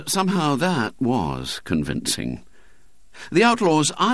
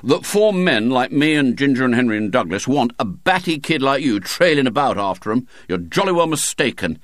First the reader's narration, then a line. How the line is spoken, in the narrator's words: said William sternly